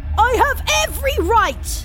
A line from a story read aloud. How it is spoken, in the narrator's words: he shouted